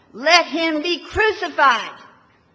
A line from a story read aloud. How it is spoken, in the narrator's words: they still shouted all the more